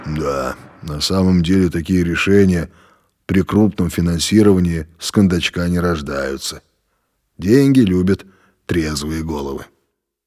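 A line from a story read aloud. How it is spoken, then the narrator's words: Amused deep voice. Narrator (Russian): Володя усмехнулся и пробасил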